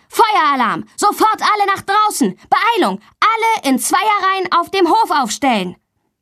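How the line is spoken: Teacher's loud shout. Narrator (German): Ihr Sportlehrer ruft laut

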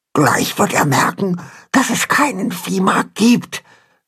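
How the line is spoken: Frightened whisper. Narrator (German): flüstert Pünktchen ängstlich ihrem Vater zu

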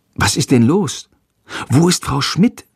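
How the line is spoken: Whispered. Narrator (German): flüstert Jendrik

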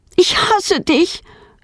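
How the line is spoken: Screaming at father. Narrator (German): schreit sie ihren Vater an

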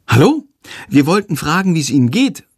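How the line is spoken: Polite call. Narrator (German): ruft Lilli höflich

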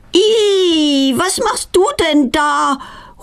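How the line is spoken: Horrified cry. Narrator (German): ruft sie entsetzt

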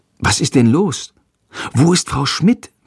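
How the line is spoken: Whispering. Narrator (German): flüstert Jendrik

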